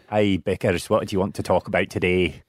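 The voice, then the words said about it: Put-on Scottish accent. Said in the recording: “speak to me in a Scottish accent.”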